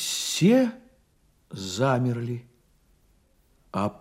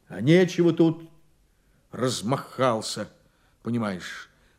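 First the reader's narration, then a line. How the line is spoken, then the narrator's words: Plain. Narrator (Russian): сказал Конторский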